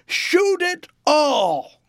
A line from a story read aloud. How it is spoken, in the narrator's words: shouted as loudly as I could